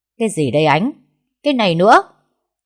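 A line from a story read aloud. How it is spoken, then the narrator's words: Screaming interrogation. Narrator (Vietnamese): Bà Cúc gào lên tra khảo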